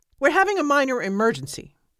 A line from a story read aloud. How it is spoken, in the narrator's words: said the other